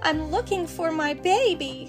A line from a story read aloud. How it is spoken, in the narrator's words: cried a mama bluebird